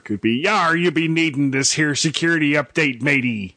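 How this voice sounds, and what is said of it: Mediocre pirate voice. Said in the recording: “my pirate voice is, like, barely better than my English accent or my Australian accent”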